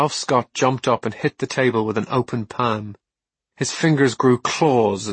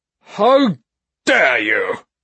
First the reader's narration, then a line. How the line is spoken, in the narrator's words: bellowed Granville Fairchild